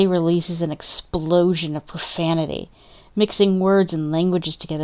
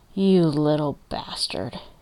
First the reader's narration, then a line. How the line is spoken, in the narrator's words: rumbles